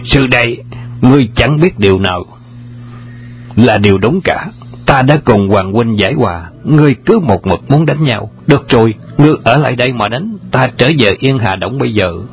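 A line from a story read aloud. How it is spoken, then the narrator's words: Irritated shout. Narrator (Vietnamese): Trùng Dương bực tức bèn quát lên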